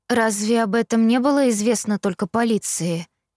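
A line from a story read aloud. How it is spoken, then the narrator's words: Flat toneless question. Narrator (Russian): Бесцветным голосом спросила я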